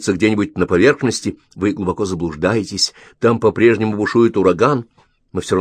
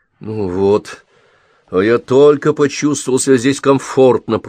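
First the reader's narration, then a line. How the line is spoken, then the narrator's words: Grumble. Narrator (Russian): пробурчал Ковальский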